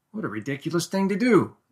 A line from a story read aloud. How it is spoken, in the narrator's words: exclaimed Middleton